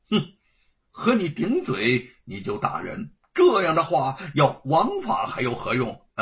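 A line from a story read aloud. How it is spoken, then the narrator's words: Sneering. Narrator (Chinese): 吴承恩冷笑的说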